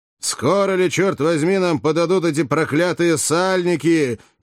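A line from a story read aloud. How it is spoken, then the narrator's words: Thunderous shout, old man. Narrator (Russian): крикнул громовым голосом старый гладиатор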